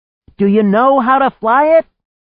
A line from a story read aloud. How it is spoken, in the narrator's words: she shouted